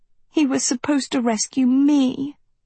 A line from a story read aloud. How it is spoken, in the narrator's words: Sophie whimpered